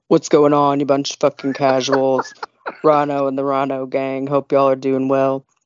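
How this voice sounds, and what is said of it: Imitates another person's voice. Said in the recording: “get your voice warmed up because it's time for you to do your Jim impression”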